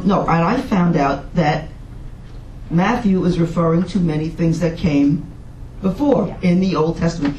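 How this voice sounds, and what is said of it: New York accent. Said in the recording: “I talk a lot like our teacher. ... our New York accent? ... In our New York accents.”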